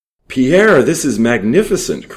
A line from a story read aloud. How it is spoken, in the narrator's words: cried Jules